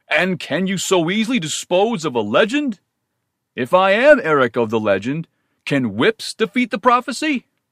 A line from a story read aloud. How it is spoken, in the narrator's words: He laughed and cried in a great voice